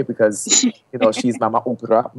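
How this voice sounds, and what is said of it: Fake South African accent. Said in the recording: “I love to say that in my fake South African, you know, accent.”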